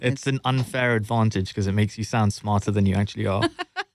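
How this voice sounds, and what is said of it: London English accent. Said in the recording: “born and raised in London, as you can tell from the accent.”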